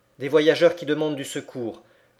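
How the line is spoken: Exclaimed. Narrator (French): s'écria Nadia

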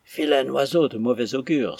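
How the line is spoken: Exclaimed. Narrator (French): s'écria Arthur

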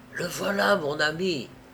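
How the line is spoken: Whispering. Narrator (French): chuchota Madame Balderson à son mari

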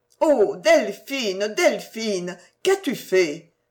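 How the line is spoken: Cried out. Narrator (French): s'écria Marie

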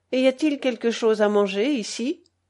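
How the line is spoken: Friendly, affable question. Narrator (French): demanda le régent d'un ton affable

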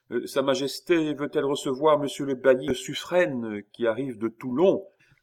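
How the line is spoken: Loud, cheerful, triumphant. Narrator (French): prononcé d'une voix haute, enjouée, triomphante

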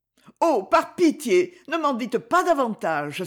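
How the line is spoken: Exclaiming. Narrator (French): s'écria-t-elle

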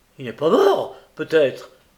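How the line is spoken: Exclaimed. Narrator (French): s'écria M

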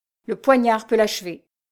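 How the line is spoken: Exclaiming man. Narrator (French): s'écria-t-il

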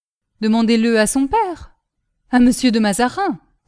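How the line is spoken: Curt interruption. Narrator (French): coupa sèchement l'émissaire du cardinal

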